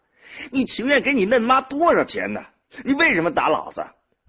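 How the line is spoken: Muffled shouted cursing. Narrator (Chinese): 萝卜花捂着腮帮子，嘴里嚷着骂道

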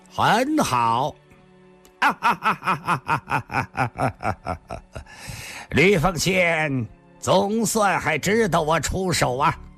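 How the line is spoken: Cold, faint smile. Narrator (Chinese): 上官金虹似乎笑了笑，冷冷地说道

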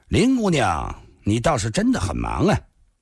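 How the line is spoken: Cold. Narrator (Chinese): 那蓝山少年冷冷地说道

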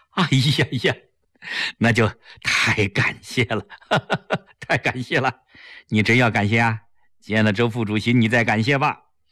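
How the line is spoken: Laughing. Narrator (Chinese): 齐长鹏笑着说

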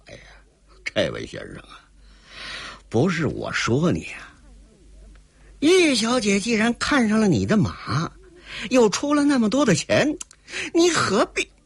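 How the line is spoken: Regretful sighing. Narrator (Chinese): 说着是重重的叹息了一声，十分遗憾的

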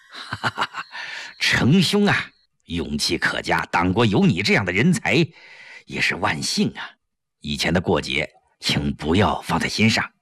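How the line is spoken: Beaming with delight. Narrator (Chinese): 吴云飞顿时眉开眼笑

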